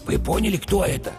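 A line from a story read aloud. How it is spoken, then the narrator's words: Whispered question. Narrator (Russian): шепотом спросил бык-тупогуб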